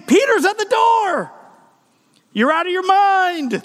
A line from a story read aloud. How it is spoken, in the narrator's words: she was so overjoyed, exclaimed